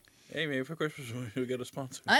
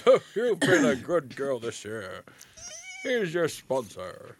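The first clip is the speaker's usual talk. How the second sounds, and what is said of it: Santa Claus character voice. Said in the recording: “That's my impression of Santa Claus. ... Pretty good.”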